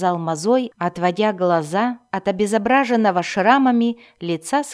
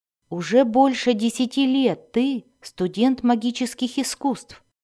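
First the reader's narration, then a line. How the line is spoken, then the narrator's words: Plain. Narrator (Russian): ответил Альтан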